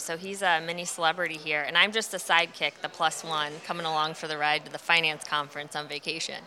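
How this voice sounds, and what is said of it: American accent. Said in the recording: “we are the Americans with the American accent, so everyone thinks that we sound different”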